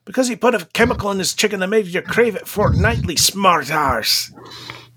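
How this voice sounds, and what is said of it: Poor Scottish accent sounding Mancunian. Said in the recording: “That was very bad because I'm drunk and my tongue feels fat. I normally do that much better ... It should be Scottish, but it kind of came out Mancunian ... perfect Mancunian accent”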